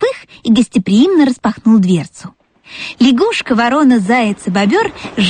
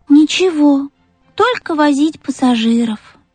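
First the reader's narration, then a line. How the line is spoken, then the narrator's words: Sigh. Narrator (Russian): вздохнул Пых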